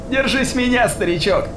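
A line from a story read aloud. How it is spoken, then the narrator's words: Shout. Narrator (Russian): крикнула Кристо Рахель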